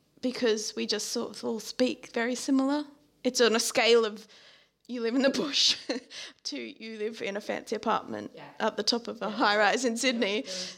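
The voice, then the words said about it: Australian accent. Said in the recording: “Definitely an Australian accent.”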